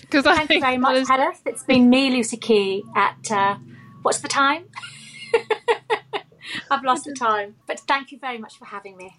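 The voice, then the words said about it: BBC-style British accent. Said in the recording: “your kind of BBC accent”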